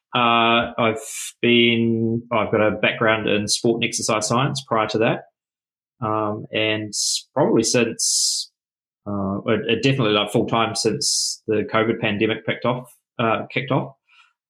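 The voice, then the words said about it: New Zealand accent. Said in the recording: “down the bottom of the world here in New Zealand, as people probably hear with the accent.”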